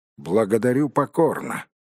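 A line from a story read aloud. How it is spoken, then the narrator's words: Gloomy. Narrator (Russian): мрачно произнес Бильбо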